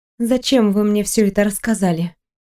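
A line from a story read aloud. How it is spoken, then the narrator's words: Trembling young woman's question. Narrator (Russian): дрогнувшим голосом спросила девушка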